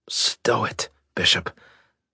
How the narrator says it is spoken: Fletcher wheezed

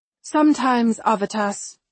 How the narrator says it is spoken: I sigh

